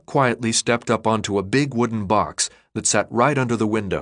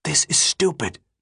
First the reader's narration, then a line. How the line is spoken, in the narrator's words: Thomas whispered